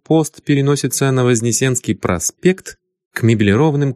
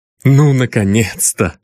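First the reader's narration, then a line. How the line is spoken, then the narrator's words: Joyful exclamation. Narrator (Russian): радостно воскликнул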